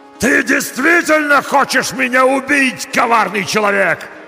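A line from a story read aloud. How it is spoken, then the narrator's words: Monster yelling. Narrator (Russian): заорал монстр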